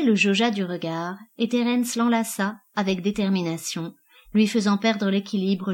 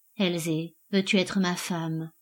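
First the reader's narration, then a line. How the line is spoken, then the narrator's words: Intimate whisper in ear. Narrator (French): murmura-t-il à son oreille, si près que son souffle la caressa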